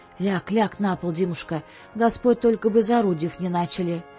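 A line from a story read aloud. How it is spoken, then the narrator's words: Frightened, strangely quiet. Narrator (Russian): побледнела мать и сказала не своим тихим голосом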